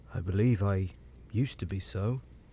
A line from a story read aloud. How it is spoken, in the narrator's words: he rejoined, in the low voice in which he had first spoken